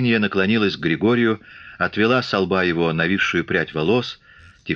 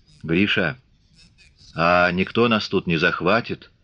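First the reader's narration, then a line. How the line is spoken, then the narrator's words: Quiet question. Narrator (Russian): тихо спросила она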